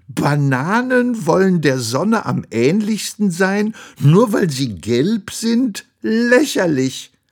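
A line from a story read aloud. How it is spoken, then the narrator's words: Laughing, shouting. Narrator (German): den Orangen lachten einige von ihnen und brüllten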